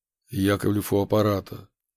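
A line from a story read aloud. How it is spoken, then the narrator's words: Dry, tired, flat over phone. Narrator (Russian): сухо прозвучал в трубке уставший голос моего начальника, лишенный каких-либо интонаций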